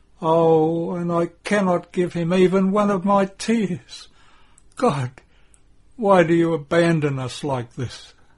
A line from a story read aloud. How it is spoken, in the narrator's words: Mary says with a moan